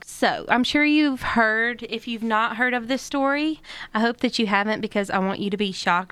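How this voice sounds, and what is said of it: Heavy accent. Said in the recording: “my accent is a lot heavier than I thought it was”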